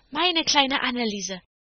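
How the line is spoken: Calling out. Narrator (German): rief das andere

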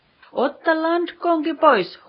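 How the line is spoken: Captain's shout. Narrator (Finnish): huusi kapteeni

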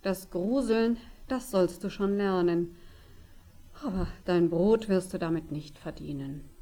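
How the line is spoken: Father's sighing answer. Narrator (German): Der Vater seufzte und antwortete ihm

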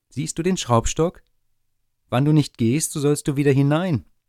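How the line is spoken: Calling out. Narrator (German): Das Schneiderlein rief

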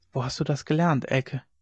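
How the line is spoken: Whisper across table. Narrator (German): flüsterte er über den Tisch hinüber

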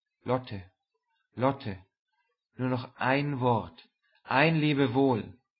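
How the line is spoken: Soft call. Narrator (German): rief mit leiser Stimme

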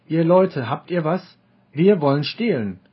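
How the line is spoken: Called out. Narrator (German): Katalieschen rief

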